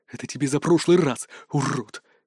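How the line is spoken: Heartfelt whisper. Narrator (Russian): с чувством прошептал он

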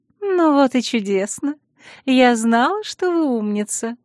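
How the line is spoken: Pleased purr. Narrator (Russian): довольно промурлыкала Наэла

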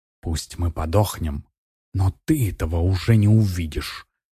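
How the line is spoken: Hissing. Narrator (Russian): прошипела суккуба

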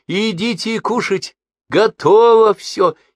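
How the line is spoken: Cheerful shout, cut short. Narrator (Russian): весело крикнула, но тут же осеклась

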